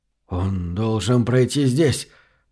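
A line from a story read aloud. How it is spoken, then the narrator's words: Muttering fugitive. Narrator (Russian): бормотал беглец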